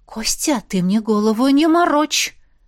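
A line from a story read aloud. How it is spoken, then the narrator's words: Hissing. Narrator (Russian): прошипела оборотница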